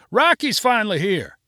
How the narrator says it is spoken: Another person yelled

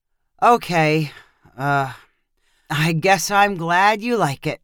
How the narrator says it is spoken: he said with a sigh

